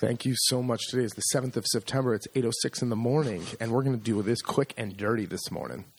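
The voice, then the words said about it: Polished radio announcer voice. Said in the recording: “You kind of have your radio voice on.”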